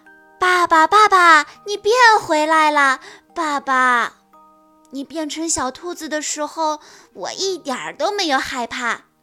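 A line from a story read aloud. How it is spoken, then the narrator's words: Loud excited shouting. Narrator (Chinese): 卡卡大声地叫着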